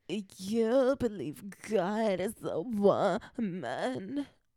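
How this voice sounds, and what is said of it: Poor imitation of another person's voice. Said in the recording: “That was the worst Ariana Grande impression ... that was more like Britney Spears”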